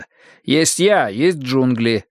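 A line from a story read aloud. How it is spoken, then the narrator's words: Plain. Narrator (Russian): сказал я ей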